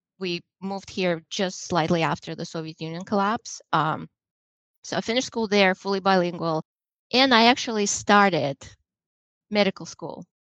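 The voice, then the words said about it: Slight Russian accent. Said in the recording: “you're probably picking up on a little bit of accent ... I still have a little bit of accent ... I am originally from Russia”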